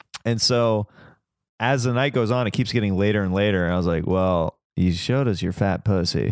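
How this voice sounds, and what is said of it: Usual voice. Nothing is said of it.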